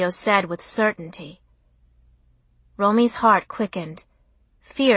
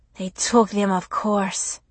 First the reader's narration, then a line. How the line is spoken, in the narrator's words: Julio sighed